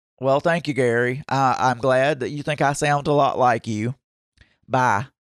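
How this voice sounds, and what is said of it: Southern American accent. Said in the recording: “my own Southern accent, which I know I've got”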